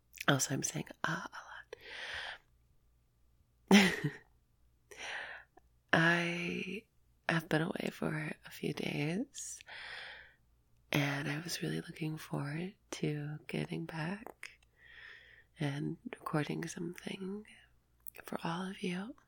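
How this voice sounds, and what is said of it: Sick, under-the-weather voice. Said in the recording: “My voice is kind of, well, I'm kind of under the weather right now.”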